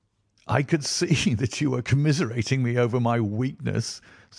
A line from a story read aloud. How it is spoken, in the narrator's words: said Holmes, laughing